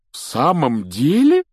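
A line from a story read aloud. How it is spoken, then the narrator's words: Delighted exclamation. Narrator (Russian): с нескрываемым восторгом воскликнул мистер Уизли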